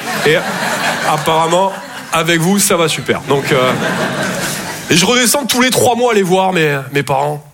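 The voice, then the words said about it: Toulouse southern French accent. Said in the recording (French): “Je viens de Toulouse à la base. Ouais, ça s'entend un peu... mon accent”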